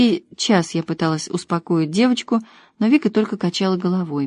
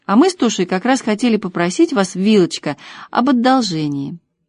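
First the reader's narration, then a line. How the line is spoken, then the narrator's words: Exclamation. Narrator (Russian): хозяйка воскликнула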